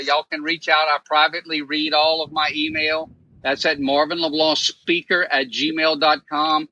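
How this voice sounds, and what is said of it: Cajun accent. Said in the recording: “the Cajun accent”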